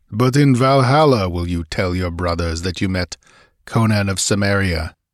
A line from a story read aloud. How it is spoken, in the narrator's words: growled the black-haired warrior